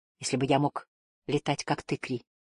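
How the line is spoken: Whispered. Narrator (Russian): прошептал

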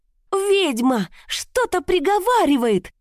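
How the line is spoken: Shrill female shriek. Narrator (Russian): взвизгнул женский голос, это была Крижана

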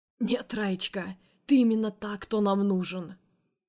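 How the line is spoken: Hoarse laughing. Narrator (Russian): Хрипло смеется он

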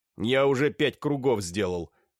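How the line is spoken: Loud complaint. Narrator (Russian): громко пожаловался Дашкин

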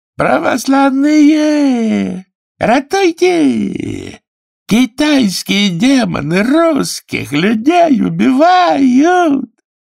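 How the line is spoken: Sudden drawling, repulsive shout. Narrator (Russian): Васюха вдруг тягучим, необыкновенно противным голосом закричал

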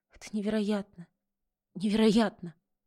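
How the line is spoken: Trembling girlish whisper. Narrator (Russian): как маленькая девочка, шептала дрожащим голосом

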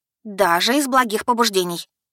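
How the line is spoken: Stern. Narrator (Russian): добавила я, строго

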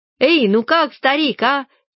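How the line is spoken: Prolonged chaotic shouting. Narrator (Russian): Они долго беспорядочно орали

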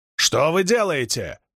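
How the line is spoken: Shout. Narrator (Russian): крикнул эсэсовец

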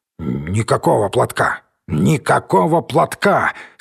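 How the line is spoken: Angry muttering, disabled man. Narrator (Russian): сердито забормотал инвалид

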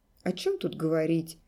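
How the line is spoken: Dry, curt. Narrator (Russian): сухо сказал Олег

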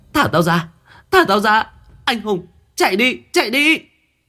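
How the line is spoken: Desperate scream. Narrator (Vietnamese): tiếng hét của Mai vang lên

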